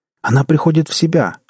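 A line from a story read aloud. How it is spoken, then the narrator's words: Joyful exclamation. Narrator (Russian): радостно воскликнул Джек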